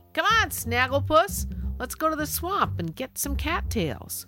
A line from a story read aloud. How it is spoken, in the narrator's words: Kevin called out to me